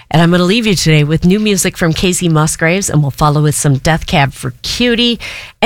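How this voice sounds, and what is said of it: Raspy, unusually deep voice. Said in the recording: “I apologize for my raspy voice today... today it sounds really deep”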